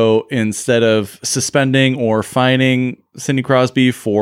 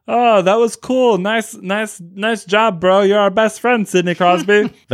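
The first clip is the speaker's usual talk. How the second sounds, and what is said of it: Imitates another person's voice. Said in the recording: “That's my George Parros impersonation ... I think that's painfully accurate.”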